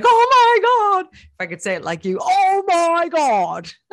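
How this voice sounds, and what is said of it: Imitates another person's voice. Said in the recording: “That is my accent. ... do I sound like Mr. Bean? You made me sound like Mr. Bean there.”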